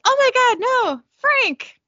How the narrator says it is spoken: she starts screaming

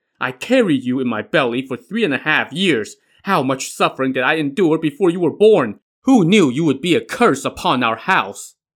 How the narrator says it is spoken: As she cried, she said

